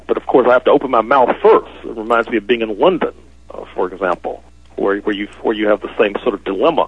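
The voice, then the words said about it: American accent. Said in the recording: “my accent, which I've been told is a U.S. accent”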